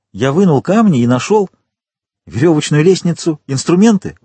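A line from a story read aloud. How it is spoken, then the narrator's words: Exclaimed, count. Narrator (Russian): воскликнул граф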